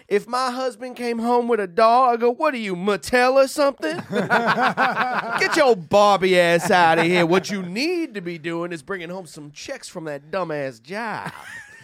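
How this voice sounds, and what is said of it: Put-on high-society Southern accent. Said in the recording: “your black accent sounds like a plantation owner ... a little high ... society southern right there”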